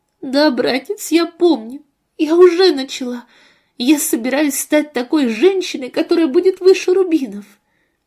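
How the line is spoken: Tearful. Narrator (Russian): Сквозь слезы она ответила

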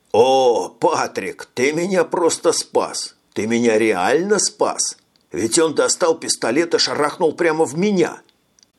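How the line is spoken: Exclaiming. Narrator (Russian): Воскликнул майор

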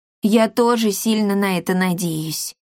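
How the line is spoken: Sighing. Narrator (Russian): вздохнул Пима

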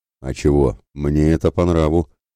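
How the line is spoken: Pleased snort. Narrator (Russian): хмыкнул довольный Ратибор

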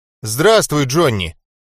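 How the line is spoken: Frightened, forced out. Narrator (Russian): испуганно выдавил из себя Яша

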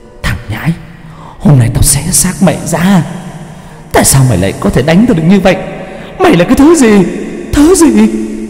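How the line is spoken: Furious hiss. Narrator (Vietnamese): Nó rít lên

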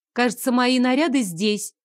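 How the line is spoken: Loud speech. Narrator (Russian): громко проговорила я

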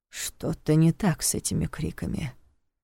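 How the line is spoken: Muttered. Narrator (Russian): пробормотал Неф

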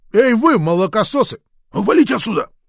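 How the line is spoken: Yelling. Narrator (Russian): один из них заорал

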